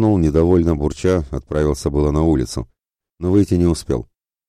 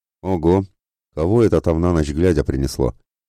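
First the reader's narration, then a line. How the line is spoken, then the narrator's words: Puzzled mutter. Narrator (Russian): Озадаченно пробормотал Мефодий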